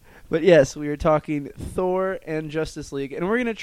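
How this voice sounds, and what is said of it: Usual voice. Nothing is said of it.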